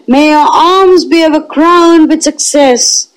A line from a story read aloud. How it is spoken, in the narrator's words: They kept up a perpetual roar